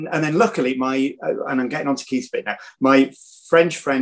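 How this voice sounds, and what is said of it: Usual voice. Nothing is said of it.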